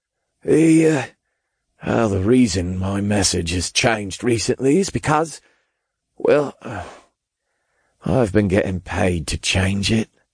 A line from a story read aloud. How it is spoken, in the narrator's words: he sighed